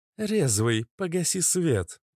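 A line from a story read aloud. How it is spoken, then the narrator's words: Cooing. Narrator (Russian): проворковала Иштар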